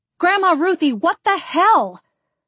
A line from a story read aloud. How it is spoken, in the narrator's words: I yelled